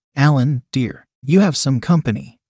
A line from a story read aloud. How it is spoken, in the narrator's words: shouted his mom